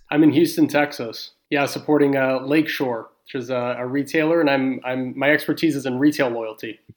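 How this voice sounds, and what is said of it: Texan American accent. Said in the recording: “your accent sounds like where you're from”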